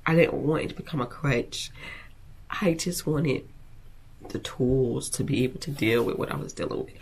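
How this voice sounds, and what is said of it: Emotional, teary, runny-nosed voice. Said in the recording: “Excuse me, my nose is dripping. ... I didn't think I was gonna get emotional about this”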